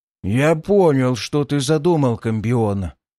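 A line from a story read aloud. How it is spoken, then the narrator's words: Giddy euphoric mutter. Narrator (Russian): с каким-то шальным весельем пробурчал Ворган, пребывая в настоящей эйфории от осознания, что его путь близок к завершению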